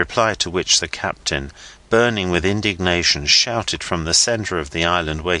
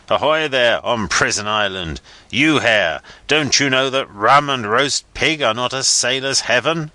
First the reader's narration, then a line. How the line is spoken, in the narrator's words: captain's roar